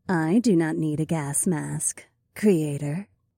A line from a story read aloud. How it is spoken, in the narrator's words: Eileen said in her low, sultry voice